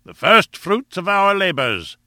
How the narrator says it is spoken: said Challenger in his booming, pedantic fashion

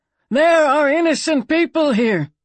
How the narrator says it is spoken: he bellowed

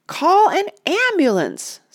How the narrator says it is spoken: screamed the lady

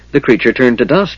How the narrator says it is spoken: said happily

